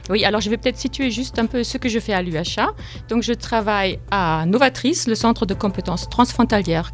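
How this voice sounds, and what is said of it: Slight German accent in French. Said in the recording (French): “Il y a un petit accent. ... je suis allemande.”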